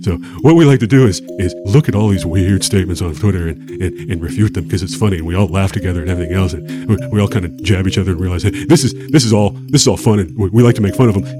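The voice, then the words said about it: Imitates another person's voice. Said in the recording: “This is actually not a bad impression of Neil deGrasse Tyson, if you ask me. ... it's starting to sound pretty good”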